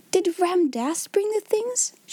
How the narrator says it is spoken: she cried out

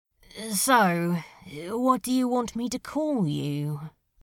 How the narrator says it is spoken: Crowley muttered

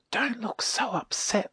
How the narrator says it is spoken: whispered Silky

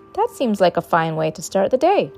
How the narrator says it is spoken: chirped the bird

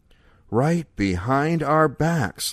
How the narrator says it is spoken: Leo breathed

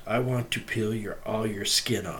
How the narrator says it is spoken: whispers

